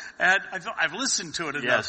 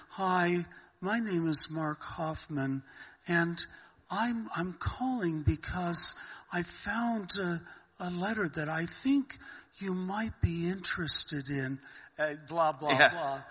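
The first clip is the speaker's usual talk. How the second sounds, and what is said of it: Innocent aw-shucks imitated voice. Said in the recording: “kind of an innocent, oh, golly, gee, shucks attitude. ... That was a good impersonation”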